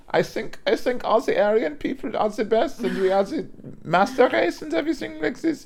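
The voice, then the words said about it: Put-on German accent. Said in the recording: “that German accent”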